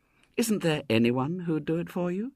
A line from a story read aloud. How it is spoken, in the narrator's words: said Ethel again, sweetly